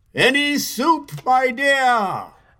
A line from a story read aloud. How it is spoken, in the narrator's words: shouted the king through a speaking trumpet